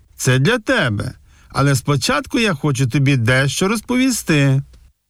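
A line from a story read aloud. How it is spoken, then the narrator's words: Grandfather, cheerful laughing. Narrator (Ukrainian): Дідусь весело розсміявся і сказав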